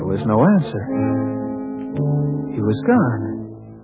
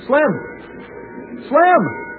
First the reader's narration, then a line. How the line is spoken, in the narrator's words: I called out